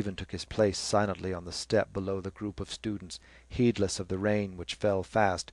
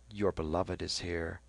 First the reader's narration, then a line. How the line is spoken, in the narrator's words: Lynch whispered to Stephen